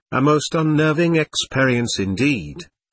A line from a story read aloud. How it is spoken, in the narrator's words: continued the voice in a most equable tone